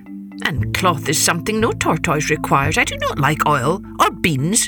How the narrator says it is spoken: he snapped

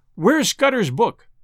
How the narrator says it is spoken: I cried to Sir Walter

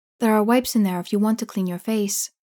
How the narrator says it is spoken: Anita she gently says

